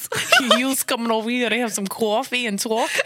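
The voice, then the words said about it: Put-on New Jersey accent. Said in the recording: “that's more of like a Jersey accent”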